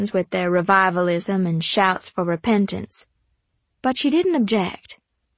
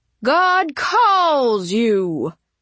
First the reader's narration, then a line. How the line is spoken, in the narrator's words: he bellowed